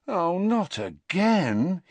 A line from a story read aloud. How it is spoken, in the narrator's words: he groaned